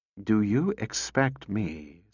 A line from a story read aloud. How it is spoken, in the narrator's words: said Cutie slowly